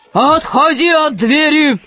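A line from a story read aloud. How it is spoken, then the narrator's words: Booming voice. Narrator (Russian): прогремел голос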